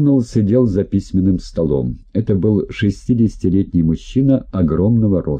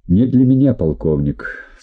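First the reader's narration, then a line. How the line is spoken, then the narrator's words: Calm objection. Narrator (Russian): спокойно возразил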